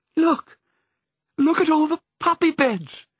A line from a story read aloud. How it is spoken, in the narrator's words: cried